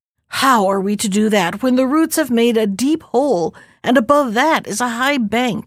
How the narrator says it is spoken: replied a fourth

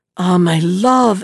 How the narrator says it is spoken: exclaimed Cornichon

